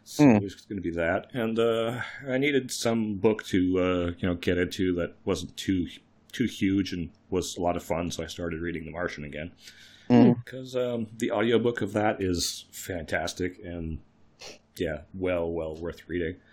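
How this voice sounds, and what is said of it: Voice sounds sick. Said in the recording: “Being sick ... I'm not quite better, as you can definitely tell by my voice.”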